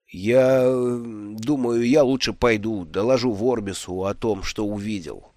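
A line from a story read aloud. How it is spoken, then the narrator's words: Mumbling. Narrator (Russian): пробормотал Брута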